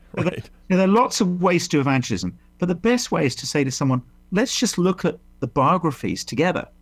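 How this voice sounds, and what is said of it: Middle-class English accent. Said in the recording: “this is a really middle-class English arrogant thing to say, this is why in Hollywood the worst villains have my accent.”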